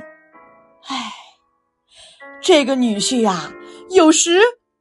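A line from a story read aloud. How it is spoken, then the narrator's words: Sighing. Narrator (Chinese): 高太公叹了口气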